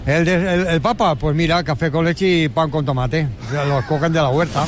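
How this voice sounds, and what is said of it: Spanish spoken with put-on Catalan accent. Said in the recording (Spanish): “Y tiene acento catalán ... Me encanta que tenga el Papa acento catalán.”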